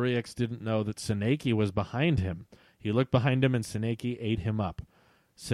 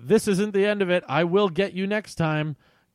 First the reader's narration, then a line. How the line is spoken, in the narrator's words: He yelled